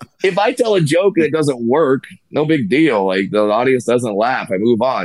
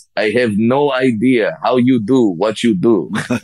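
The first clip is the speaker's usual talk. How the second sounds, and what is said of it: Put-on Russian accent. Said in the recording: “in this Russian accent”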